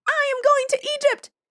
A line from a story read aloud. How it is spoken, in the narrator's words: cried the swallow